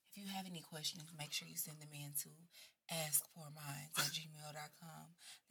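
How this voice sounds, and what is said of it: Sexy radio announcer voice. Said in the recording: “I feel like I need to do my radio, like the radio, yes. ... Sexy voice.”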